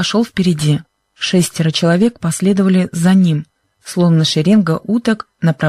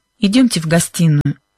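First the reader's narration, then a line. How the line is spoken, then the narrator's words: Tense voice. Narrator (Russian): напряженным голосом проговорил мистер Уилкинс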